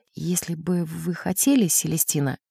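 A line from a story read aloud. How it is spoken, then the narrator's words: Very quiet. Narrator (Russian): очень тихо сказал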